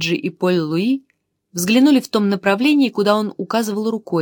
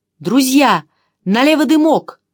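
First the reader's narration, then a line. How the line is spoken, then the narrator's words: Joyful shout. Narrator (Russian): Чандос радостно крикнул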